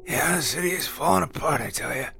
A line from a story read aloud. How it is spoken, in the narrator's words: croaked